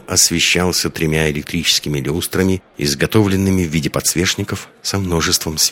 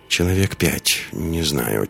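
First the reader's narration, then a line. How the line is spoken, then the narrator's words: Quiet reply. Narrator (Russian): тихо ответила Лиска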